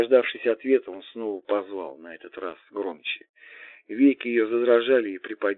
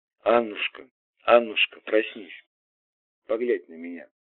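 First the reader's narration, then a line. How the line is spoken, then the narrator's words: Father, soft but insistent. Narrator (Russian): Отец произнес мягко, но настойчиво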